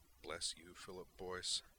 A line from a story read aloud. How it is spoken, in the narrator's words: Griffin murmured